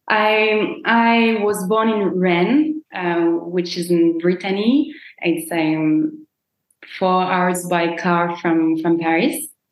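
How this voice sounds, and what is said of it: French accent. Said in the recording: “I guess you're French because of your lovely accent.”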